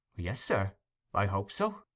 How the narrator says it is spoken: faltered Giles, who had turned very pale

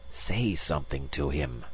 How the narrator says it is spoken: Magnan hissed

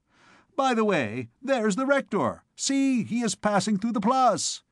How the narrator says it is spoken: cried one of those in the window

